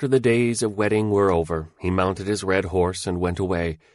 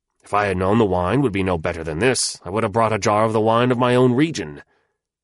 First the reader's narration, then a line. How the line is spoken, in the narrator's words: he said harshly